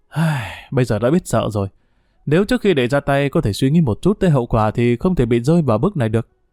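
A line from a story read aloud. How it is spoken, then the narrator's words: Sighing. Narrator (Vietnamese): Triệu Húc thở dài nói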